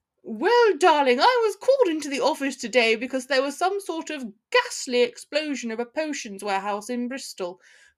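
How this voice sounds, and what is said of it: Falsely bright, put-on posh accent. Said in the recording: “Harry replied with false brightness and an equally false aristocratic accent.”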